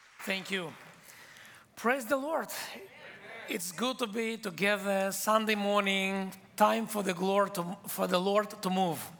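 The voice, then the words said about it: Israeli-accented English, fast speech. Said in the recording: “I came from Israel. English is my third language. So when I speak English, I do mistakes sometimes and have my accent. And in Israel, we speak fast.”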